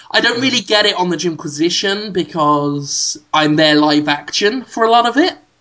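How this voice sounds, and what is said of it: British accent. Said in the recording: “a British guy who wasn't on camera ... my accent's not on the paper”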